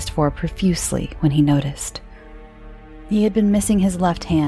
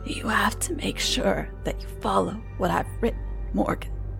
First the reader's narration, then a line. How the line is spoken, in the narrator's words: wheezed